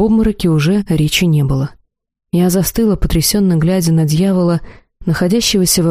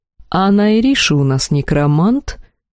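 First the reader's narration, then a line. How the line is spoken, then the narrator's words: Mocking. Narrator (Russian): все так же насмешливо продолжил повелитель Арвеэль Декреа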